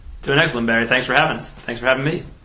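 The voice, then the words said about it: American accent, not Wigan. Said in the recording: “travelled across the big pond, come all the way from the States ... That's not a Wigan accent either, is it?”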